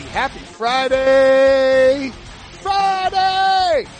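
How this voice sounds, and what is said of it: Yelling loudly. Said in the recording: “why I'm yelling”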